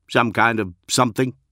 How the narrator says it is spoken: he grunted

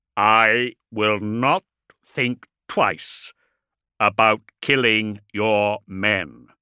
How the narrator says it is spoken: Corland said, uttering the words deliberately and slowly so that he would not be misunderstood

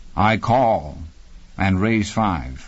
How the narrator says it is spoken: he said

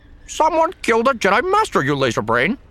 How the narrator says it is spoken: He was so irritated that his voice warbled

